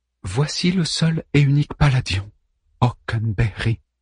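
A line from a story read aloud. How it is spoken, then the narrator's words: Murmured. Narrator (French): murmure Hélène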